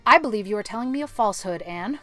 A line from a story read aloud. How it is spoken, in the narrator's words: she said sharply